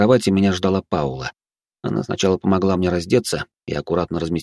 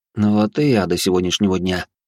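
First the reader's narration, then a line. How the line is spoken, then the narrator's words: Sigh. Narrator (Russian): вздохнул я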